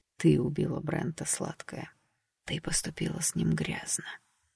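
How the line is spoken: Sinister whisper. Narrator (Russian): зашептал мужчина зловеще

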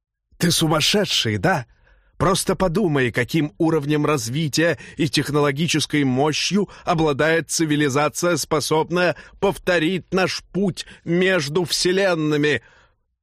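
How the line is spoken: Hissed. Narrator (Russian): прошипел логрианин

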